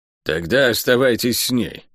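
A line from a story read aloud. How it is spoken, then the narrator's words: Grumbled. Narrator (Russian): буркнула проклятая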